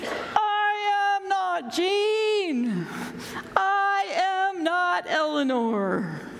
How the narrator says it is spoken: They screamed

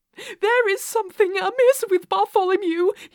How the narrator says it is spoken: he cried

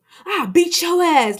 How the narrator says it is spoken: Lenny yells

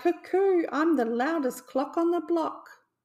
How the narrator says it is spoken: he cried

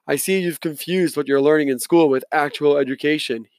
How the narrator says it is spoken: said in his thick voice

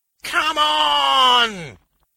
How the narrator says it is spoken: he howled

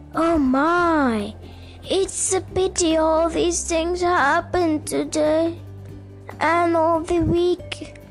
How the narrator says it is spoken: groaned Joe to Rick

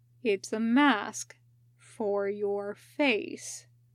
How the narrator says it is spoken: Kakashi said slowly

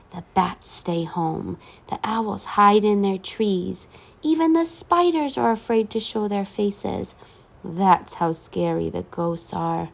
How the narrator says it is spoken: she said in a whisper

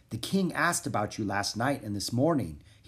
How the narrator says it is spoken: he said in a soft voice

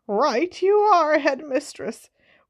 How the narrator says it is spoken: wheezed Filch, who was a squib

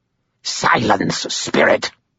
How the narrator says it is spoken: Cowl said in a harsh voice

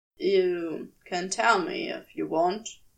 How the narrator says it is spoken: he said quietly

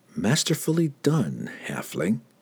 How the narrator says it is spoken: Cassius whispered into the night wind

